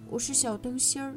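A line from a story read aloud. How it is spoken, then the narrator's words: Low dying donkey voice. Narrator (Chinese): 驴子睁开垂死的眼睛，用同样的驴子话低声回答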